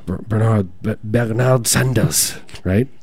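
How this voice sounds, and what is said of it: Put-on Austrian German accent. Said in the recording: “that was my German accent. That was my, excuse me, Austrian. That was my Austrian accent.”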